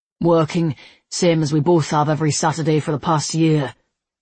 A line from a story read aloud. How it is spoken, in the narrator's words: Levi grunted